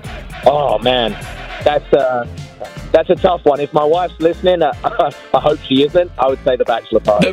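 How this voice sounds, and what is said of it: North East London English accent. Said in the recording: “you have an accent. Where are you from? ... I'm from North East London.”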